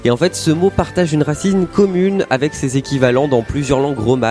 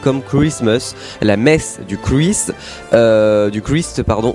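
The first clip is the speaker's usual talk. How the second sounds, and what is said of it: Put-on English accent. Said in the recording (French): “je sais pas pourquoi j'ai pris un accent anglais”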